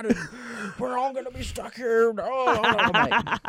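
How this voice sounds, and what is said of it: Imitates another person's voice. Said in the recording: “that kind of slid into your other impression of one of the bosses here. There's a little bit... of both.”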